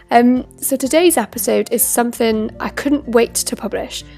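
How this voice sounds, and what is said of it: Stuffy, congested voice. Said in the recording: “I've had an awful cold all week, so hopefully I'll be able to get through this introduction without losing my voice.”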